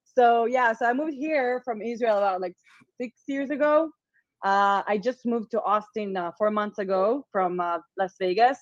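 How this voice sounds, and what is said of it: Slight non-native English accent. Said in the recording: “English is not my first language, so there might be like a little accent”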